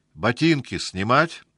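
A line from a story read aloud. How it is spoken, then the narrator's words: Loud question. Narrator (Russian): спросил он громко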